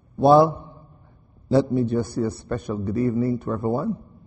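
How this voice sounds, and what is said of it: Strong accent, takes adjusting to. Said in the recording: “It'll take just a moment for you to get the accent to click in.”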